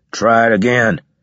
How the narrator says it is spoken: growled Leeson

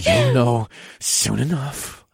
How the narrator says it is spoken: grunted

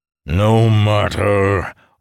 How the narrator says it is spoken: Orath Issian bellowed

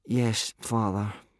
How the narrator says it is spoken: said Hiccup, miserably

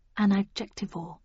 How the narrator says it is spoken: I murmured

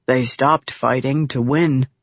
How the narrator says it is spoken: Red softly added

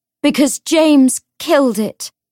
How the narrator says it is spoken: Cordelia said as loudly as she could

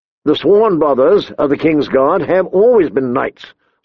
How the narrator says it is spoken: Sir Boris said firmly

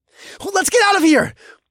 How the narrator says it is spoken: I shouted

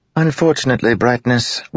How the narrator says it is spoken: Wit replied with a sigh

